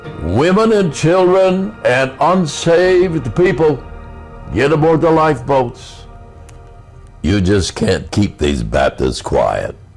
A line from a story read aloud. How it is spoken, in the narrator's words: that Baptist minister ran around the deck shouting